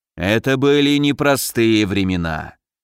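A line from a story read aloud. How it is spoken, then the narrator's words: Sigh. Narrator (Russian): вздохнул Разумовский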